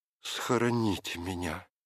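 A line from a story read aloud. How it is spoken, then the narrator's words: Pleading. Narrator (Russian): взмолилась Мария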